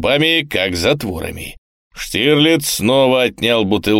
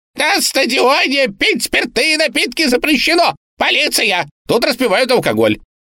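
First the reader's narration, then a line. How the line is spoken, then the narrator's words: Shrill squealing scream. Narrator (Russian): Репортер пронзительно закричал, взвизгивая на каждый гласный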